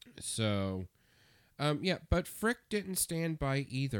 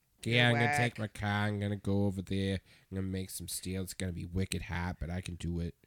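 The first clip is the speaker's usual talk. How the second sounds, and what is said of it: Put-on Boston accent. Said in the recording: “trying to do a Boston accent”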